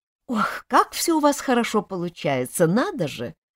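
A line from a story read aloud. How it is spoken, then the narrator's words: Awkward embarrassed laugh. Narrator (Russian): неловко рассмеялась Люда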